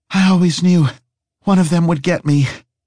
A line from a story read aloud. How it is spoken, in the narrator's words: Harry panted